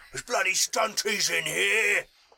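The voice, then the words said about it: Gruff orc character accent. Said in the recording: “I love a good orc accent.”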